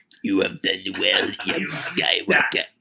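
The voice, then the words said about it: Bad impression of Darth Sidious. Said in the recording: “our terrible Ian McDermott Sidious impersonations”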